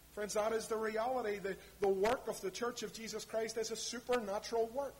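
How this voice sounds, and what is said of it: East Belfast accent. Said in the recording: “that fine East Belfast accent you've got”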